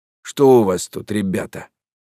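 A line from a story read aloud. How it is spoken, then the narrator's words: Hoarse bass voice. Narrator (Russian): он спросил сиплым басом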